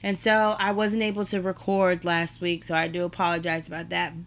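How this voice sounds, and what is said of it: Weakened, not fully recovered voice. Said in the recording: “I am under the weather. My voice is slowly starting to come back, but it's still not where it was or where it needs to be.”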